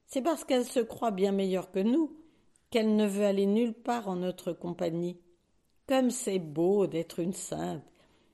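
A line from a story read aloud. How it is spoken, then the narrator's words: Sneering. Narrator (French): ricane Marguerite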